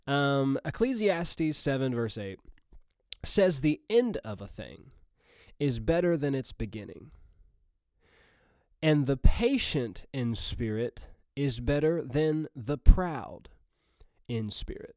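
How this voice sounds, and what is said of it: Missouri Southern American accent. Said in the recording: “regular, normal Missouri Southern accent”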